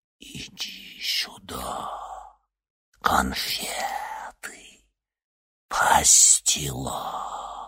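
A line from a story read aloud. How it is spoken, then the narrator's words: Whisper in ear. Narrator (Russian): прошептала ему на ухо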